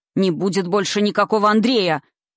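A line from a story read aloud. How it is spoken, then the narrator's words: Old man's unprecedented shout. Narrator (Russian): закричал старик так, как никогда не позволял до этого себе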